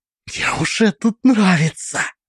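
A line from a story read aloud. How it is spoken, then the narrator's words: Whisper. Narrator (Russian): прошептала Алиса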